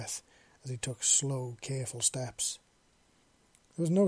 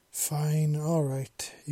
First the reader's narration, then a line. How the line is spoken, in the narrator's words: he grumbled